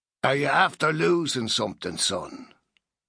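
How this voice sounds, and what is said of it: Old man, Dublin accent. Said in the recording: “an old man with a Dublin accent”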